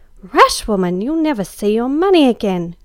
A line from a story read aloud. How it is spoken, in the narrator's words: cried Em